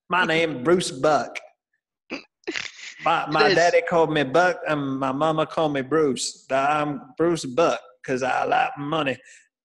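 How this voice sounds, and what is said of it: Imitates another person's voice. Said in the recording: “my Bruce Buck impression”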